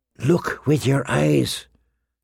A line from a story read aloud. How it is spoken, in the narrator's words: Sirio whisper